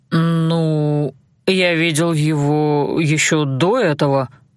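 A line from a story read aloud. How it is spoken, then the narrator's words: Uncertain. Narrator (Russian): неуверенно произнес Танаан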